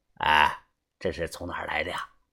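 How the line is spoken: Quiet question. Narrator (Chinese): 小声的问我

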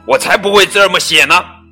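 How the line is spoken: Roaring. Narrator (Chinese): 狮子大吼

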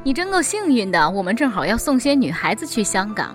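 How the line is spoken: Group laughing. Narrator (Chinese): 他们都笑了，说

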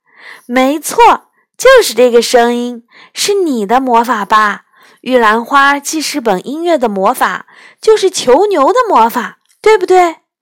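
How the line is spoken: Laughing shout. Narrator (Chinese): 一边笑着一边嚷了起来

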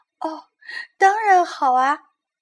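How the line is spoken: Smiling reply. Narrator (Chinese): 贝琳达微笑着回答

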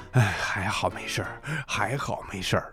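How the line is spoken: Relieved, nervous mutter. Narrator (Chinese): 他长长的舒了一口气，紧张的嘟囔着

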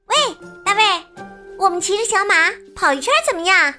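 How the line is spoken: Loud shouting. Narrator (Chinese): 小马桑尼和哈维尔就大叫起来

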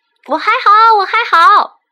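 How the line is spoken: Loud shouting. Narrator (Chinese): 罗宾在那边大声的叫着

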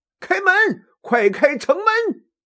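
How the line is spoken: Loud shout. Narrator (Chinese): 吕布抬头高喊

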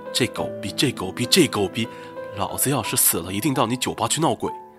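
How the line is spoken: Furious inner roar. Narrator (Chinese): 我心中一个声音在咆哮

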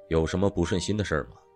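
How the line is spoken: Flat, indifferent. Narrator (Chinese): 妻子 淡淡的说道

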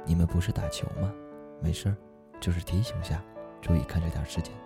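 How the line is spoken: Low, cautious voice. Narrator (Chinese): 用略带谨慎的口气低声说

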